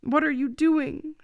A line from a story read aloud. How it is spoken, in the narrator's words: she cried at him